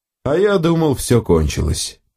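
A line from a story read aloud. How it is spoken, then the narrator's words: Father sighing. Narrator (Russian): вздохнул отец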